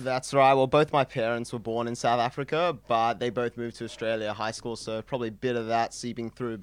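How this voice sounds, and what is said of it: Australian accent with South African tinge. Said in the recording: “Is this a Bondi accent? ... you've got some South African in you ... so you've got some South African Bondi.”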